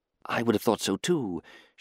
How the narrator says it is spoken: she whispered into the gloom

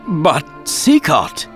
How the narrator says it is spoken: Raoul spluttered

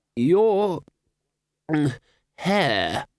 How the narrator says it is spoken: began hoarsely

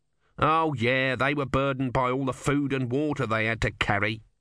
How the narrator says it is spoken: said Om bitterly

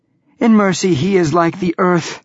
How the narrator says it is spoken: gasp

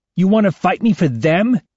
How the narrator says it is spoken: snarls

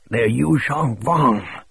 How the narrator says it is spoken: Showalter rasped

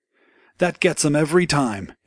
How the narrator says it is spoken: he cried

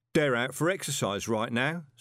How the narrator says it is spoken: said Winton

